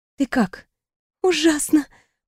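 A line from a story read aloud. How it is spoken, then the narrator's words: Hoarse wheeze. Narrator (Russian): просипела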